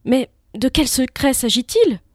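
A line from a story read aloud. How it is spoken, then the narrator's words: Young messenger, trembling voice. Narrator (French): demanda le petit messager d'une voix tremblante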